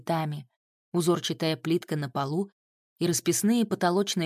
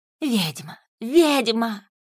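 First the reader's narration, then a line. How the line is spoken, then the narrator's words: Hostile shouting and hissing. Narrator (Russian): кричали русалки и шипели, вот-вот готовые наброситься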